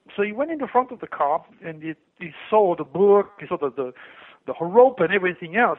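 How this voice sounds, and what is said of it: French accent. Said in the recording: “he recognized my accent, and he goes, where are you from? I said, I'm from France.”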